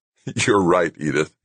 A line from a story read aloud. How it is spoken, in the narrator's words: he said, laughing